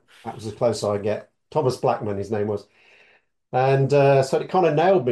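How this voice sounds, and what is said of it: Usual voice. Nothing is said of it.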